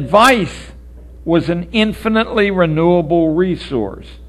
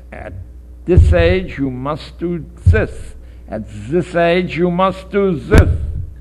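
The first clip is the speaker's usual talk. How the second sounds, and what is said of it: Exaggerated bad German accent. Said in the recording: “Excuse my bad accent. ... Otherwise, I speak flawless German.”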